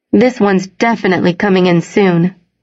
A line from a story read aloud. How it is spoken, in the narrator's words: he said